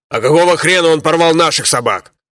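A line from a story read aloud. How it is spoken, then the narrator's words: Angry shout. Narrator (Russian): злобно крикнул один из погонщиков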